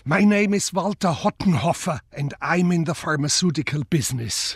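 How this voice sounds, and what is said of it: Broad German accent, calm modest manner. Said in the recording (German): “Der breite deutsche Akzent, seine bescheidene, ruhige Art”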